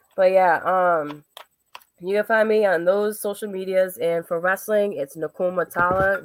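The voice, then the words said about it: Strained, fading voice. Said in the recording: “I'm like losing my voice.”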